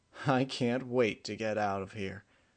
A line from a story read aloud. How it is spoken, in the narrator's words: Emerald chuckled